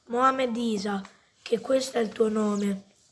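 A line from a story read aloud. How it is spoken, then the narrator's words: Plain. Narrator (Italian): disse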